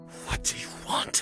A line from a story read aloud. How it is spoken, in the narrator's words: he hissed through his teeth